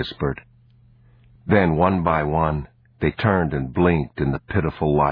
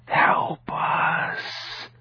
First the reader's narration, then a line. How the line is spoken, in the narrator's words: they whispered